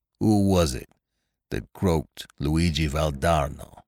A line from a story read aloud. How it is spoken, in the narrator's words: asked the Italian hoarsely